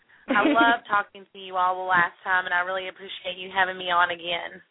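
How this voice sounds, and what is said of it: Worn-out, strained voice. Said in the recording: “My voice is terrible because I've been talking to children all day”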